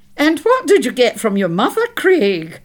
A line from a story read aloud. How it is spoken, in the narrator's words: piped up Aunt Margaret